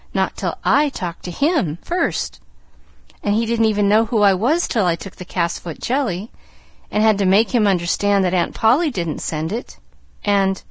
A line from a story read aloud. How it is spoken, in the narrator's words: cried Pollyanna